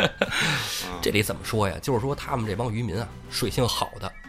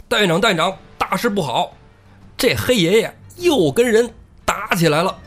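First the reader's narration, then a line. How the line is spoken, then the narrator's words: Panicked shouting. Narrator (Chinese): 慌慌张张大喊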